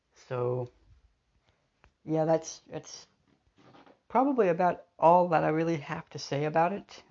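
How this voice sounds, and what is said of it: Voice sounds off, unwell. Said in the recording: “my voice is kind of different sounding, it's because I'm not feeling well”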